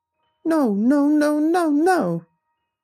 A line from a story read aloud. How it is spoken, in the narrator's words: shrieked tears on his cheeks